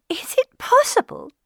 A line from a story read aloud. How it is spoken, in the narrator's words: cried Elizabeth